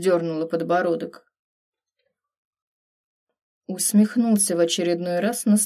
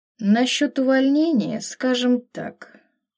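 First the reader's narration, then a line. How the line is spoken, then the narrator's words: Thoughtful drawl. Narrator (Russian): протянул задумчиво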